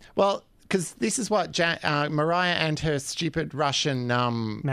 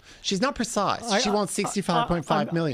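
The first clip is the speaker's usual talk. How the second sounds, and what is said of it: Rude-sounding imitation of another person's voice. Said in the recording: “it would be so rude ... my Kerry Packer impression”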